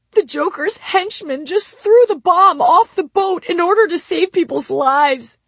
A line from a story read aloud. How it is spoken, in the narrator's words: he sobbed